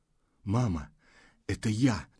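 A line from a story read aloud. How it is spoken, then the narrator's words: Muffled hoarse unfamiliar voice. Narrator (Russian): Приглушенный голос, незнакомый, хриплый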